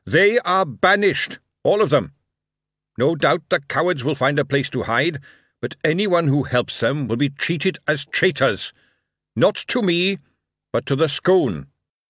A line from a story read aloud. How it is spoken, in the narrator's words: He raised his voice and announced to the crowd